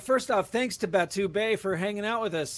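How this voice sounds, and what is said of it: Announcer-style voice. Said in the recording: “he's got the announcer voice going on”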